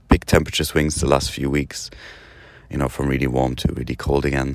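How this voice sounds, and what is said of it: Groggy voice. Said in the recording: “As you can probably hear, my voice is a bit groggy this morning.”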